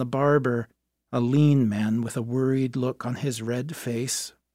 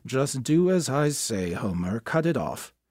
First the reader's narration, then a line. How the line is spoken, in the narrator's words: Through a steaming towel, her father had muttered